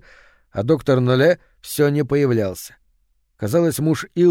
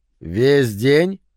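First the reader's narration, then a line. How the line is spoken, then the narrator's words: Muffled voice. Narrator (Russian): Ее голос звучал глухо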